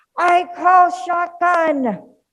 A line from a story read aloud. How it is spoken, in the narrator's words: one of them would shout it out